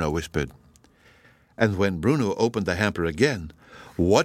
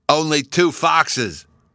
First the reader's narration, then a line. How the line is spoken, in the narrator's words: Bruno cried in a great hurry